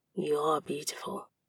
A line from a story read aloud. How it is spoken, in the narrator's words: as his lips brushed my ear, he whispered